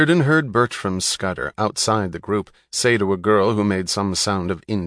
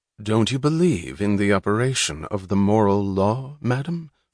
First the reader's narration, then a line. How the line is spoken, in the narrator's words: Francisco asked gravely